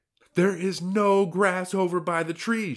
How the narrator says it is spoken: shouted Sylvia

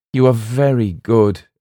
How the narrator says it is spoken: exclaimed the voice

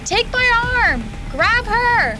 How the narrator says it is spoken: wailed Taylor

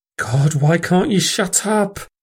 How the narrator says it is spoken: She pleaded

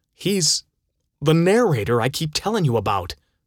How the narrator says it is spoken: Jack exclaimed

